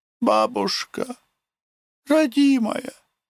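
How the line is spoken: Sobbing. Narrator (Russian): Нюша с рыданиями

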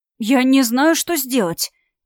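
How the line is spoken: Frightened whisper. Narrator (Russian): Испуганно прошептал парень

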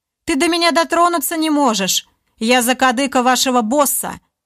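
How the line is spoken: Snide, smiling. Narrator (Russian): Олег ехидно улыбнулся

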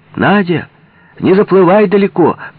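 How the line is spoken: Anxious shout. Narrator (Russian): крикнула Вера Алексеевна тревожно

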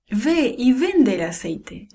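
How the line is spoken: Plain. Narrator (Spanish): dijo

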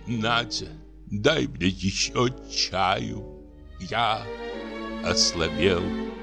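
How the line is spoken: Weary languid voice. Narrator (Russian): Разбитый, утомленный, говорит томным голосом

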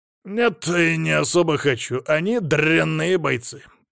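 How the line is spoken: Contemptuous, through teeth. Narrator (Russian): презрительно процедил Аким

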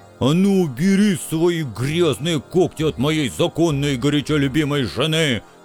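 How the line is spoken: Jealous, offended roar. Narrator (Russian): Ревнивым бизоном взревел оскорбленный бульдозер

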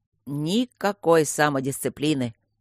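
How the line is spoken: Grumbling. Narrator (Russian): бурчало его змейшество

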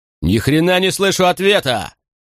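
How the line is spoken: Roar. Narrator (Russian): взревел Макрон

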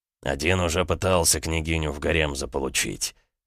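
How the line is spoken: Amused grunt. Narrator (Russian): хмыкнул Ксандр

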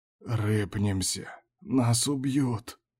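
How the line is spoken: Whisper. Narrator (Russian): шептал он

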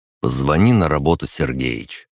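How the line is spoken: Calm. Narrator (Russian): спокойно сказал я

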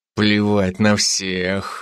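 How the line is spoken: Growling. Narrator (Russian): прорычал он

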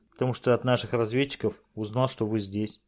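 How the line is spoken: Childlike voice. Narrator (Russian): продолжал Харп Сэна своим детским голоском

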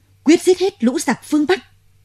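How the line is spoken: Generals roaring together. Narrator (Vietnamese): chúng tướng ai nấy trừng mắt thét to

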